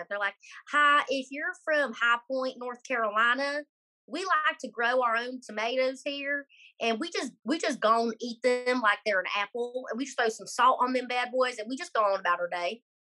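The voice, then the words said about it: Put-on High Point North Carolina accent. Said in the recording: “Pretty much the accent ... I am so good at the accent. ... That's pretty good.”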